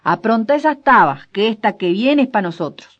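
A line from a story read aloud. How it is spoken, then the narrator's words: Shouting. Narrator (Spanish): gritó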